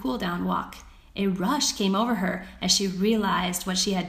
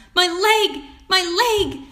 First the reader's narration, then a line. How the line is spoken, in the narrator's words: cried Violet